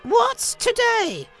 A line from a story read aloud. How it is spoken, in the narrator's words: cried Scrooge, calling downward to a boy in Sunday clothes